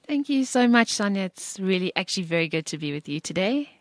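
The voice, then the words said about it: Strong British-sounding accent. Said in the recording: “such a strong British accent”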